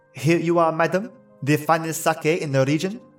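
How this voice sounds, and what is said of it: Put-on French butler accent. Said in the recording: “putting on my best French butler accent that I could”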